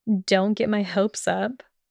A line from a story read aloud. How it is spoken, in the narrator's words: mumbled sarcastically